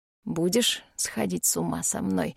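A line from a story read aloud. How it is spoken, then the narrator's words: Hoarse voice in head. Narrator (Russian): Звучит в голове хриплый голос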